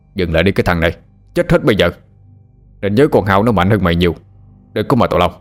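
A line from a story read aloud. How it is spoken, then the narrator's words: Loud shout. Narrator (Vietnamese): ông hai quát lớn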